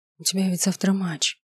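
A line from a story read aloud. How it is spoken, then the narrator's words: Whispering. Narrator (Russian): прошептала я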